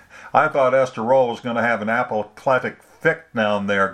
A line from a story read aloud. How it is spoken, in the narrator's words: Glenn laughed